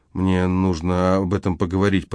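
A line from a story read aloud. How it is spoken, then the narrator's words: Mutter. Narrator (Russian): пробормотал он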